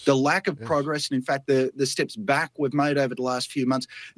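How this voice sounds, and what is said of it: Speaker with a noticeable accent. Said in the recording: “I love the accent.”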